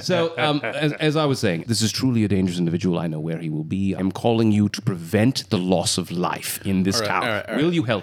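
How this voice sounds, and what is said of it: Put-on British accent. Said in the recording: “I've gone full Brit with him. ... it's so much more fun when you're British.”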